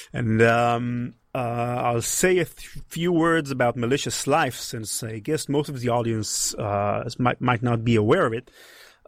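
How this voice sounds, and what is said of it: Israeli accent. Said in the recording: “You might hear from my accent that I'm from Israel.”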